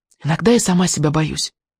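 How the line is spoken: Confiding whisper. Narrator (Russian): доверительно прошептала

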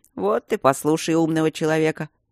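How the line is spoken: Grumbling mutter. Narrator (Russian): пробурчал Майло

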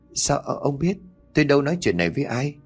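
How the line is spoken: Trembling question. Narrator (Vietnamese): cô run rẩy cất giọng hỏi

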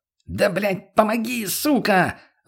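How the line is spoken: Groggy yelling. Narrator (Russian): заорал мутный Лени

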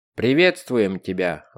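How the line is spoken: Booming voice. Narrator (Russian): вновь прогремел голос

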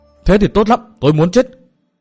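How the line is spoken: Loud shout. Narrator (Vietnamese): Thượng Tiểu Vân hét to

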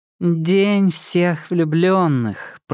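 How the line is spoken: Drawling. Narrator (Russian): протянула Старова

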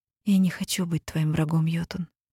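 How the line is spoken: Quiet confession. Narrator (Russian): тихо призналась я

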